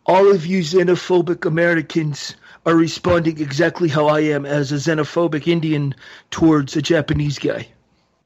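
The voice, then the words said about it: Imitates another person's voice. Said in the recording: “That was my best Jinder impersonation.”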